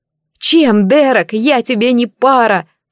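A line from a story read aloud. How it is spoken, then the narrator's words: Tearful cry. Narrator (Russian): Вскрикнув, почувствовала, как слезы подступают к глазам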